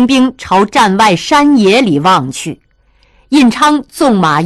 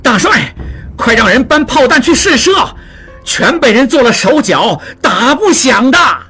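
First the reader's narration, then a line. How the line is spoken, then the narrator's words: Loud. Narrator (Chinese): 望柏大声说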